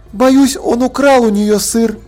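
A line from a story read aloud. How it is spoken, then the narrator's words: Sigh. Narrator (Russian): Полли вздохнула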